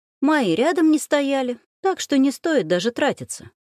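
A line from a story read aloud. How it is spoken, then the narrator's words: Cheerful. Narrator (Russian): весело выдала эта экономистка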